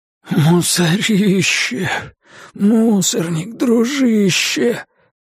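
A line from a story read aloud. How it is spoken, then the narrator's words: Hoarse wheeze. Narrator (Russian): просипел он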